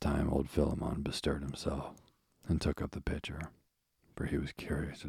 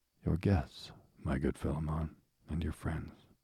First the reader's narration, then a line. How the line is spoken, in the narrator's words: replied the elder traveler, in his mild, deep voice that had something at once sweet and awe-inspiring in it